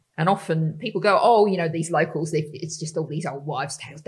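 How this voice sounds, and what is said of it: Australian accent. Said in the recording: “if anyone hasn't picked my accent up, it comes from Australia originally”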